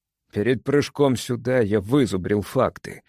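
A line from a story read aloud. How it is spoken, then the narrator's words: Through gritted teeth. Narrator (Russian): сказал Эверард сквозь зубы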